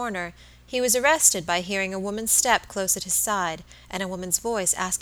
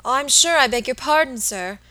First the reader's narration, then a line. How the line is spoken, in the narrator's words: exclaimed the little woman, seeing that she had made some awful mistake